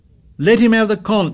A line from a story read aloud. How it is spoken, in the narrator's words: shouted Piggy